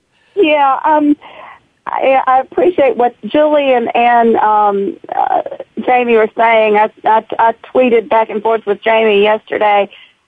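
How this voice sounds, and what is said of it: Sick, slightly off voice. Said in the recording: “I've got a little bit of walking pneumonia, so my voice is a little bit off.”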